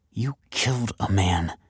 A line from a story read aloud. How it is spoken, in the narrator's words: she hissed